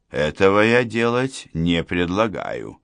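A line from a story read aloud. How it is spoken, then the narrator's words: Calm objection. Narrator (Russian): спокойно возразил Гуров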